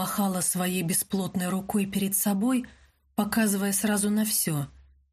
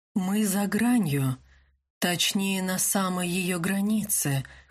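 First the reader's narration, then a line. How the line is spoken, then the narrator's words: Slightly hoarse. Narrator (Russian): хрипловато ответил Винсан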